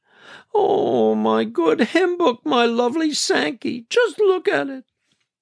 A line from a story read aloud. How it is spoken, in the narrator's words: She sobbed